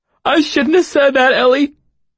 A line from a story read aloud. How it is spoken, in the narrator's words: he sobbed, sounding more wretched and repentant than I would have thought possible